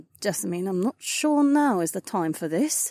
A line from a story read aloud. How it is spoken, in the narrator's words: Sienna muttered